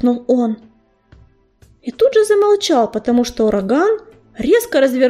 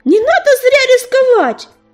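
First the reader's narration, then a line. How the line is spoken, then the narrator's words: Yelling after them. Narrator (Russian): заорал им вслед ежевика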